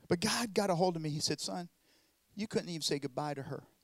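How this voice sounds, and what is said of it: Southern US accent. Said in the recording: “I know my southern accent.”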